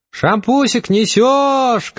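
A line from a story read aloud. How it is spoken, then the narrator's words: Shouting. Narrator (Russian): крикнула Тамара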